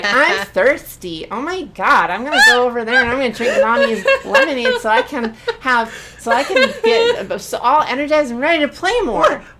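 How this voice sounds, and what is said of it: Babyish impersonation of a friend. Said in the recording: “Is that baby brain Chloe? Is that what that impersonation is? ... Yeah, that's how you sound.”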